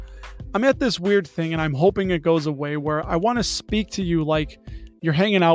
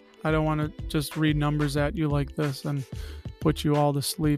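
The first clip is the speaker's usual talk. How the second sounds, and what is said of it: Public radio announcer style voice. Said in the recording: “So this sounds like a National Public Radio voice.”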